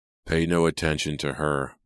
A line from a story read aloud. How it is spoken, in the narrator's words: a high-pitched voice wheezed from behind him